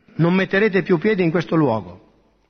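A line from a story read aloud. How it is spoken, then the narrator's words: Stern tone. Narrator (Italian): aggiunse con tono severo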